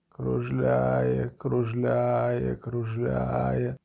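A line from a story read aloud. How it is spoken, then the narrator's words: Muttered. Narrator (Ukrainian): бурмотів він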